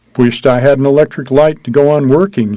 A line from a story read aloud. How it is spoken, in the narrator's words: he said